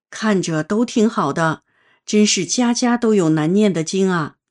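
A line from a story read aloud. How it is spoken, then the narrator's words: Surprised sigh. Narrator (Chinese): 理发师听后很吃惊，感叹道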